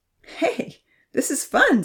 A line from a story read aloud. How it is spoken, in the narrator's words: Zahir laughed